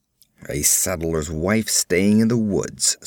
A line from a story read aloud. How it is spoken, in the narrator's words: snarled Conan